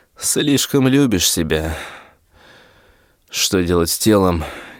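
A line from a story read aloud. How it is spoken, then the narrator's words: Quiet question. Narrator (Russian): Тихо спросил в пустоту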